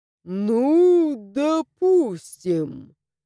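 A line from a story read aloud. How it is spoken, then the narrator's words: Ghost drawling. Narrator (Russian): протянул призрак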